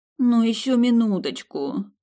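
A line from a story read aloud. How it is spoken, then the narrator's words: Sleepy groan. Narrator (Russian): Сонно застонала я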